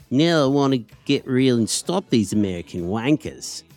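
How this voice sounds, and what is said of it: Bad impression of Occy. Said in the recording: “my really bad attempt at imitating him”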